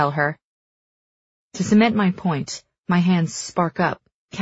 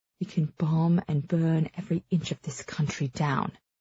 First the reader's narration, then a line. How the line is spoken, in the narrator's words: she murmurs, with something like pride